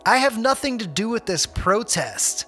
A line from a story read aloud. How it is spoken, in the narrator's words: shouted